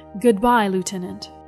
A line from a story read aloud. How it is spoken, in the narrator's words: uttered evenly